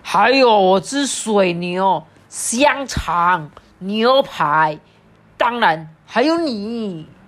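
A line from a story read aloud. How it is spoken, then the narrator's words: Furious roar through gritted teeth. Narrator (Chinese): 乔尔杰咬牙切齿的大吼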